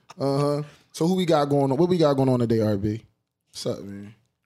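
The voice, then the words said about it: Radio voice. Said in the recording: “I got the radio voice today.”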